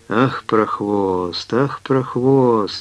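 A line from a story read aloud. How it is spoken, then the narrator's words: Hoarse hiss through teeth. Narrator (Russian): сквозь зубы сипела Пелагея Ивановна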